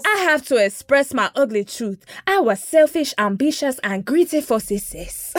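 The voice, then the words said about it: Put-on generic African accent. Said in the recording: “I'll do my general Africa accent, my Wakanda accent ... y'all know I love to do my general continent of Africa accent”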